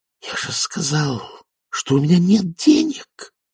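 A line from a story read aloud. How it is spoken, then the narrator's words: Hissed. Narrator (Russian): прошипел Фейри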